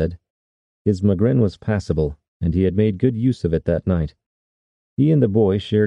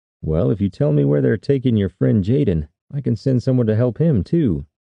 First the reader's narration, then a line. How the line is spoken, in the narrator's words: Tanner said